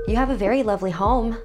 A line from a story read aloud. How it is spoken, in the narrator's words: I blurted out